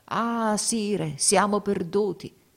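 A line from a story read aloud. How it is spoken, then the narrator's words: Despairing exclamation. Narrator (Italian): battendosi il volto, esclamò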